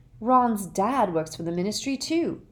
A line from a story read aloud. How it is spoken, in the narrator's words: said Harry furiously